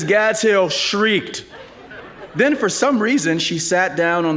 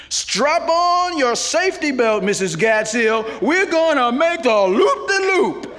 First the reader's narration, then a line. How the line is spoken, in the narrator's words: in a paroxysm of joy and shouted